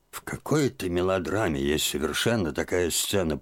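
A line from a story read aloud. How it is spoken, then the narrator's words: Muttered. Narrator (Russian): пробормотал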